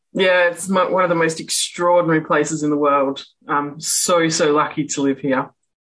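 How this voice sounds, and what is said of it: Western Australian accent. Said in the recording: “from outside of North America. She's got a bit of an accent ... I'm from Perth in Western Australia.”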